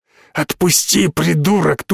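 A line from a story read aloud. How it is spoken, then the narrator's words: Hoarse wheeze. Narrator (Russian): тут же прохрипел он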